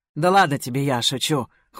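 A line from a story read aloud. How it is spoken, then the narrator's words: Smirking grunt. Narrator (Russian): хмыкнул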